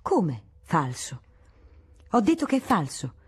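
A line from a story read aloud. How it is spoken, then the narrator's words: Astonished exclamation. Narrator (Italian): Il principe, con estremo stupore, esclamò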